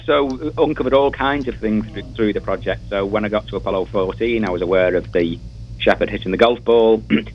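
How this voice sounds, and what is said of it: Northern English accent. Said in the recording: “northern England ... I love your accent.”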